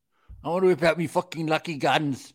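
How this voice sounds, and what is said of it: Exaggerated leprechaun-style Irish accent. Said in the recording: “I got my Irish accent ... You're doing a leprechaun ... it's the only fucking lucky accent I can”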